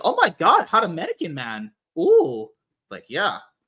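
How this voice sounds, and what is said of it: Bad British accent, sounds Middle Eastern. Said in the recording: “Yeah, because that's what British people sound like. ... Yeah, that's like a Middle Eastern accent or something.”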